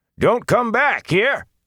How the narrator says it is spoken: he had shouted after them

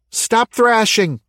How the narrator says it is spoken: shouted Megan

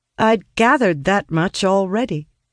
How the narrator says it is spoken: I reply, perhaps more sharply than necessary, the mage's objection to participate still weighing heavily upon me

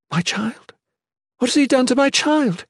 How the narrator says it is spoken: she cried

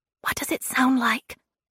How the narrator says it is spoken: I whispered

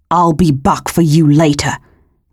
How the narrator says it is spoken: he snapped at me

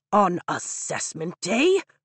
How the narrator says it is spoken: Nolan growls

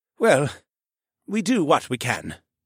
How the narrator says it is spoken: the priest replied

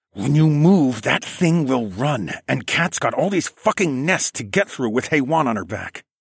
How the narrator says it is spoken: I said through gritted teeth

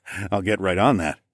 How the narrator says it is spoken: I chuckled

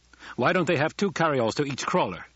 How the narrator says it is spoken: barked the Duke

